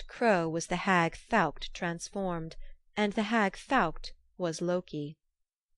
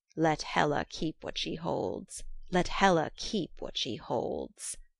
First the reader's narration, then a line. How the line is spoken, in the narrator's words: The crow croaking as she flew